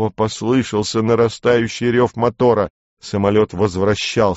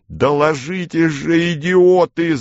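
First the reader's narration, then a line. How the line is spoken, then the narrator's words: Shouting. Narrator (Russian): закричал я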